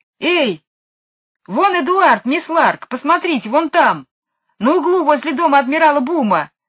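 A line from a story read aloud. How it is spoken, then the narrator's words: Shouting. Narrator (Russian): закричал Майкл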